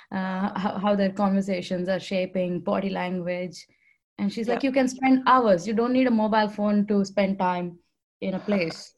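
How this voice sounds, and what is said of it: Indian English accent. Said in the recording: “with my Indian accent, you can figure out that I'm from India”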